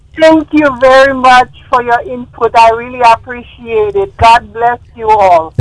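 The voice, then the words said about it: Haitian accent. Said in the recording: “are you Jamaican? ... I am from Haiti. ... you've got a beautiful. I love the accent ... French accent”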